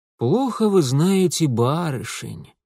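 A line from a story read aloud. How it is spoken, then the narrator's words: Worldly, knowing sigh. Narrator (Russian): с видом умудренного столичного щеголя вздохнул Митя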